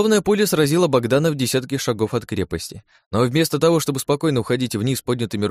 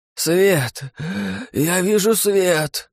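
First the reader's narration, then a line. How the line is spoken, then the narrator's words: Hoarse wheeze. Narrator (Russian): прохрипел Богдан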